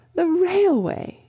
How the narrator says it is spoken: gasped Miss Lavish

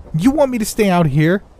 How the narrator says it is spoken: She blurted, clearly not happy with the prospect of being left alone

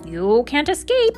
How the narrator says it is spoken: screeched the crow to Katisha

